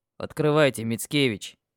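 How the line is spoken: Deep voice behind door. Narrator (Russian): пробасили за дверью голосом Тарасана

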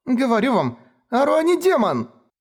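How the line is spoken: Shrieking woman. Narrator (Russian): Взвизгнула она

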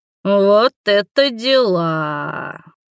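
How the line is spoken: Drawling witch. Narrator (Russian): протянула ведьма

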